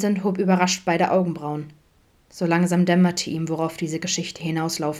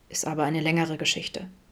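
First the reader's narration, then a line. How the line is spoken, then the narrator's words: Sheepish mumble after pause. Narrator (German): nuschelte nach einer Weile kleinlaut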